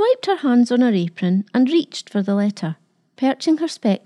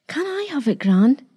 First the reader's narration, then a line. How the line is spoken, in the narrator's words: he asked excitedly